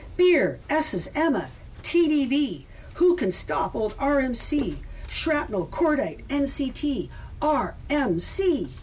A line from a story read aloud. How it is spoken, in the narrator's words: would shout at the top of our lungs